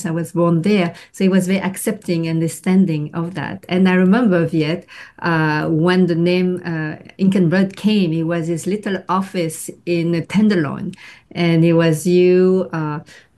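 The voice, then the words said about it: French accent in English. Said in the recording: “I have a French accent”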